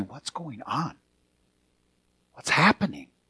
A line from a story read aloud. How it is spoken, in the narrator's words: Someone turning to someone and whispering and saying